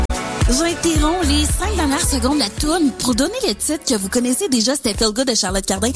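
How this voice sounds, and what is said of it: Imitates a Quebec commercial radio host. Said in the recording (French): “imitation d'une radio commerciale québécoise”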